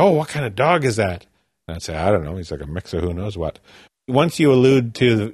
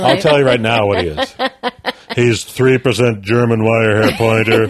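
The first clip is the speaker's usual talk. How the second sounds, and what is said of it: Cartoonish comic character voice. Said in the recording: “That's your sibling's voice ... my one character voice ... It's a good voice ... It's really me doing a character voice that our cinematographer on Corner Gas and Hiccups used to do ... It's kind of like a cartoon meteorologist or something”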